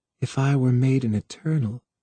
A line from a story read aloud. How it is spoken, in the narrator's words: breathed, almost in his ear, scarcely heard